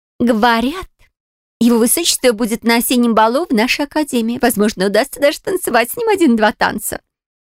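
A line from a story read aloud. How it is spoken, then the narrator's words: Dreamy exclamation. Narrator (Russian): воскликнула подружка Клара, мечтательно закатив глаза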